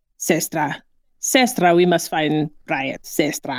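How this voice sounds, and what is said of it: Mock East German accent. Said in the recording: “how hilarious East German quote unquote accent is”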